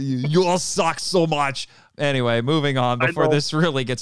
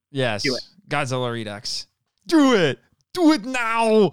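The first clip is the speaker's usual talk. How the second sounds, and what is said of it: Deliberately bad celebrity voice impression. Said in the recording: “worst Schwarzenegger impersonation”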